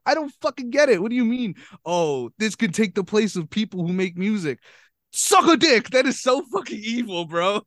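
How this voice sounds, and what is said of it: Angry yelling. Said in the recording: “I'm yelling at these these examples you're illustrating.”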